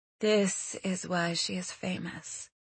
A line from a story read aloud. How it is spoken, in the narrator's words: Sarah breathed